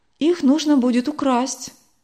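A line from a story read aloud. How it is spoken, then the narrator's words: Calm, respected priest. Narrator (Russian): спокойно ответил уважаемый священник Голландской реформаторской церкви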